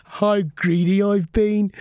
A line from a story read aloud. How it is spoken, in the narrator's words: sputtered Bruce with a giggle